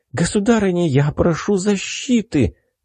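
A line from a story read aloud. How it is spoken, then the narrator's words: Obsequious, joyful exclamation. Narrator (Russian): подобострастно воскликнула девушка, радостно улыбнувшись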